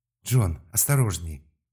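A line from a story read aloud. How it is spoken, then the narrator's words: Exclamation from behind. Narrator (Russian): воскликнул где-то позади Терри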